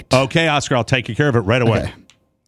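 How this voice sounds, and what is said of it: Impression of a co-host. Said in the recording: “do an impression of Rob”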